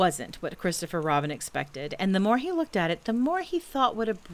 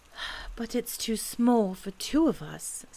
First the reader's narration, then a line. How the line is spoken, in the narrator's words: said Christopher Robin sadly